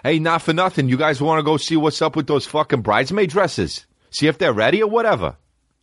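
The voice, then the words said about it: Mock Boston accent. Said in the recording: “Chicks from Boston with that accent”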